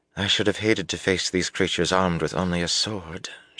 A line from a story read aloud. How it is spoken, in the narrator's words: murmured